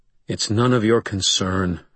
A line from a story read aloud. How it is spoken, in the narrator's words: I said quietly